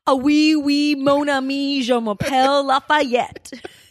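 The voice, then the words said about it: Exaggerated put-on French accent. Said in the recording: “I've heard your French accent”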